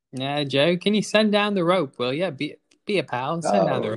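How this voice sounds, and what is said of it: Put-on accent. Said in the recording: “I like to talk in this accent when I talk to you, Joe.”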